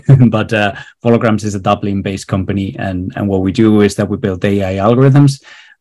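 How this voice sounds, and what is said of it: Spanish accent. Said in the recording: “my accent, I'm not from Ireland. I'm actually from Spain.”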